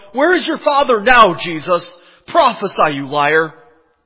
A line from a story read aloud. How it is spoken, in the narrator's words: I heard people yell